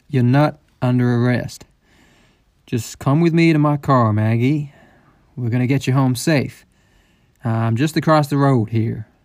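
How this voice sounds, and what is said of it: Speaking very slowly and calmly. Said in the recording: “Why are you talking so slowly?”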